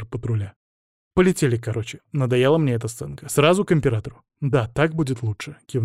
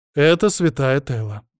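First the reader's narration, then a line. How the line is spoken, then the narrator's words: Snide. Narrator (Russian): представила меня ехидно ощерившаяся Иоланта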